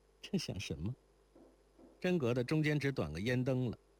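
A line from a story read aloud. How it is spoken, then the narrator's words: Laughing. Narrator (Chinese): 如莲笑道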